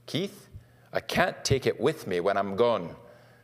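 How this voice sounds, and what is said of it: Put-on Scottish accent. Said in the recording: “That's the Scottish accent.”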